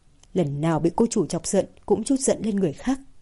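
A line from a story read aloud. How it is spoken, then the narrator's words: Relieved mutter. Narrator (Vietnamese): Thời Dũng mới thở phào một hơi, lẩm bẩm nói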